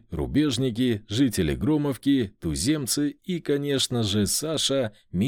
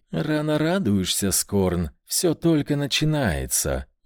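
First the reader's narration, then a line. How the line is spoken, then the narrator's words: Gentle voice. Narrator (Russian): ласковым голосом отозвалась Лейра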